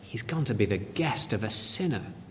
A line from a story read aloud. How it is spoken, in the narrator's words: All the people began to mutter